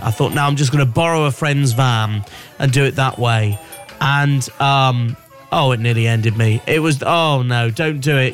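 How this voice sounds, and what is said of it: Strained, run-down voice. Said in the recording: “You can probably hear my voice is not, you know, I've been so run down over this lot.”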